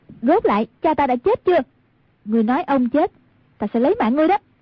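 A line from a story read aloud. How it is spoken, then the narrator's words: Shout. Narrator (Vietnamese): Quát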